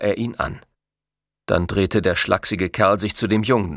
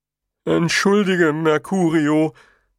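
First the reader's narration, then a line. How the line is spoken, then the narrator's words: Giant whimpering. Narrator (German): wimmerte der Riese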